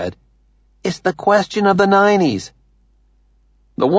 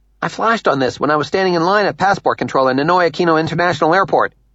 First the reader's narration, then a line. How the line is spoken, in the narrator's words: Abby said, compressing that entire name into a single, sharply articulated burst